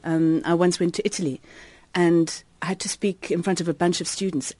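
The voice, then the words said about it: South African English accent. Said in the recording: “I don't speak with a British accent ... my accent, which is a South African one, is easier to understand”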